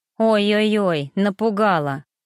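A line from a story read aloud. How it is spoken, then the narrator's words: Cat snorting, humanlike. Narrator (Russian): фыркнул очень уж по-человечески кот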